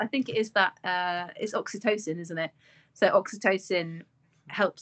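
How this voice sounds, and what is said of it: Usual voice. Nothing is said of it.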